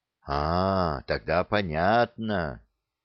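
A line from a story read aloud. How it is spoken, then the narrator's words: Hesitant drawl. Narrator (Russian): неуверенно протянул боец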